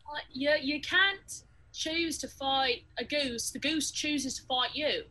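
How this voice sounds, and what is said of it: Imitates another person's accent. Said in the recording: “I'm keeping slipping into Jack's accent.”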